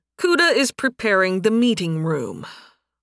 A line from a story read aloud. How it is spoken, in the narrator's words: With a sigh, Nathan said